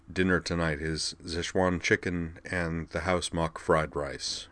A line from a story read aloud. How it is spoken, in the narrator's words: he said quietly